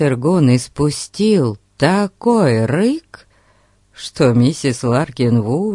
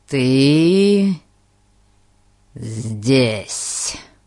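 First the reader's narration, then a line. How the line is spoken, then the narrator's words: Crisp, clipped. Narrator (Russian): Отчеканил Гун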